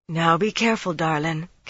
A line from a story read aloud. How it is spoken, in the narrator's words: Caroline said in that throaty voice